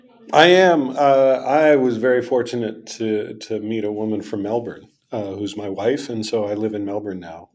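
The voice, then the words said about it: Non-Australian accent. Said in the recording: “a non-Australian accent”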